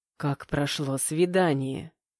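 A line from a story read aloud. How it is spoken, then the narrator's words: Quiet whisper in ear. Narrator (Russian): мужчина, склонившись над ухом, тихо прошептал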